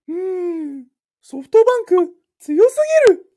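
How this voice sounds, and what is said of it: Mouse character voice. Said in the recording (Japanese): “ネズミさんの声で”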